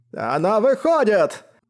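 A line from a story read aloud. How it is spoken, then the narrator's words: Joyful shout, old men. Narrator (Russian): Радостно закричали два старика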